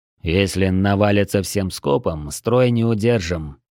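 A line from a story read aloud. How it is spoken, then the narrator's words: Grim summing up. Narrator (Russian): мрачно подвел итог Дрой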